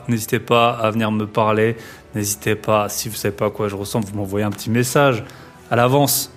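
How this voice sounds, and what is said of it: Distinctive accent. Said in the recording (French): “mon accent si caractéristique”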